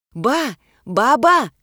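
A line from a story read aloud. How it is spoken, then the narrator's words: Shouted. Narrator (Russian): крикнула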